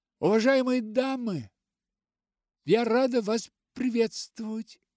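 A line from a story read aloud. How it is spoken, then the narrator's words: Polite babble. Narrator (Russian): вежливо пролепетала она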